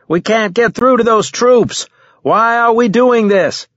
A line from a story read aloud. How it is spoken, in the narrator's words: I shouted